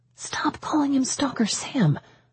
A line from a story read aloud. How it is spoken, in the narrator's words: I whispered, feeling my heartbeats increase